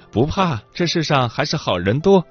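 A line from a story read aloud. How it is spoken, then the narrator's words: Smiling. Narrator (Chinese): 他笑笑说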